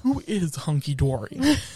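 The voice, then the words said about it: Imitates another person's voice. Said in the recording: “I have never heard that voice from you before, and it was an experience. ... That was my impression of Kathy Hilton.”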